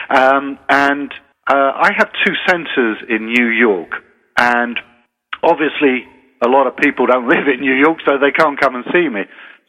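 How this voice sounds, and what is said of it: British accent, unlike American host's. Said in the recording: “I got my PhD in hair loss research in the University of Portsmouth in the UK. You can hear my accent isn't quite the same as yours.”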